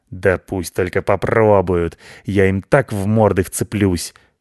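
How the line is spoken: Hissing. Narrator (Russian): шипел Рыжий

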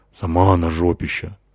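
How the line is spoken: Grumbled. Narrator (Russian): буркнула Натаха

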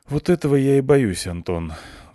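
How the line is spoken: Sighing. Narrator (Russian): вздохнула Клюся

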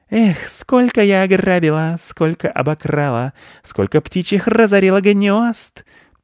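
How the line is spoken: Thin singing voice. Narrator (Russian): пела она тонким голоском

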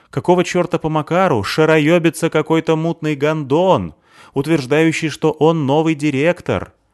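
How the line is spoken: Pointedly loud. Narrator (Russian): Она говорила подчеркнуто громко

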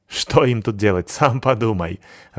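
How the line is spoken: Sorcerer laughing. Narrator (Russian): рассмеялся колдун

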